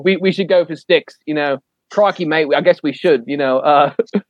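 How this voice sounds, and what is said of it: Bad put-on Australian accent. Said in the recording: “Worst Australian accent ever.”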